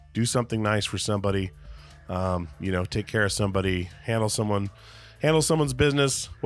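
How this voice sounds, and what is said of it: Strained, not fully recovered voice. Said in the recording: “Smoke in the air. I think that's why my voice is taking so long to heal.”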